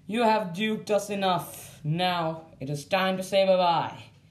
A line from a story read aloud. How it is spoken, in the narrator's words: said as he advanced towards me menacingly